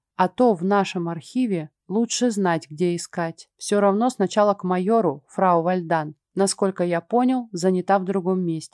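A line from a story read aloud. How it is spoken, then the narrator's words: Plain. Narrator (Russian): ответил он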